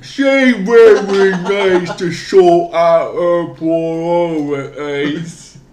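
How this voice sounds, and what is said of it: Exaggerated put-on accent. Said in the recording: “It's funny to do in the most exaggerated accent possible.”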